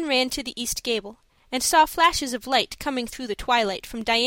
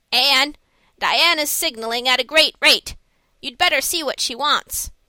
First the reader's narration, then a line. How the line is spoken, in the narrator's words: Marilla called out from her room